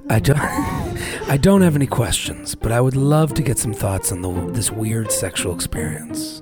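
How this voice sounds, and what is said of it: Put-on sexy voice. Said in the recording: “I'm going to go into my sexy voice”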